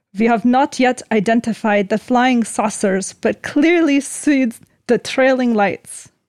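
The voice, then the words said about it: Put-on Russian accent, drifting Scottish. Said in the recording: “Let me do this in a Russian accent. ... It went into a Scottish or like”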